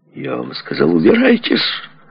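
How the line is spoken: Furious shouting. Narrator (Russian): заорал Руни на своих порядком скисших телохранителей

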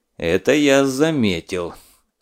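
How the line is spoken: Stern, through gritted teeth. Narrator (Russian): сурово процедил сквозь зубы Скуратов

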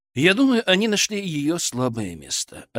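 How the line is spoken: Calm answer. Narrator (Russian): ответил я спокойно

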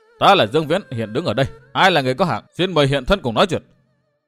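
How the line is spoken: Deep commanding shout. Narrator (Vietnamese): bằng giọng hơi trầm quát

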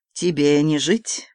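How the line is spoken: Soft menacing. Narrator (Russian): мягко промолвил француз

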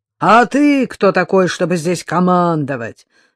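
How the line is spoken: Man growling. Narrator (Russian): зарычал коротко стриженный блондин

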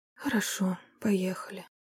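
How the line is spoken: Lifeless whisper, then sobbing. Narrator (Russian): безжизненно прошептала и разрыдалась в голос

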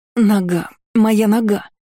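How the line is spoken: Feigned casual moan. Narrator (Russian): простонала, словно невзначай

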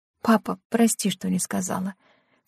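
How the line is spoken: Quiet. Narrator (Russian): Лена ... тихо произнесла

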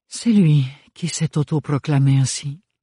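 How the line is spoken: Sighed. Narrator (French): soupira Bérénilde

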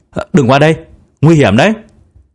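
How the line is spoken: Child's warning shout. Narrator (Vietnamese): cậu bé hét

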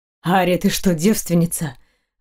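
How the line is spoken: Hoarse voice. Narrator (Russian): раздался хриплый голос

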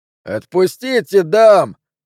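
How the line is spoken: Yelled. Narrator (Russian): заорал еще кто-то

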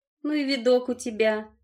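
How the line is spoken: Giggle. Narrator (Russian): хихикнула

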